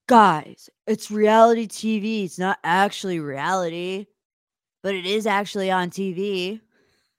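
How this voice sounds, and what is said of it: Imitates another person's voice. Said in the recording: “do my best Aaron impersonation”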